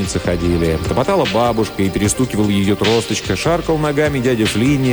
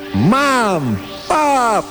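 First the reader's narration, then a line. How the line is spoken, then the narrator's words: Shouting at full strength. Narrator (Russian): крикнул он изо всех сил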